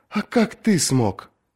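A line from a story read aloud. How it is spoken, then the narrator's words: Quiet question. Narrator (Russian): тихо спросил Ланцель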